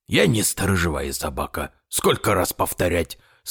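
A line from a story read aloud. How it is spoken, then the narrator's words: Plain. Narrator (Russian): сказал Ураган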